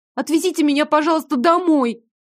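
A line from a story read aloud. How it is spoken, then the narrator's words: Nearly shouting. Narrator (Russian): чуть ли не крикнула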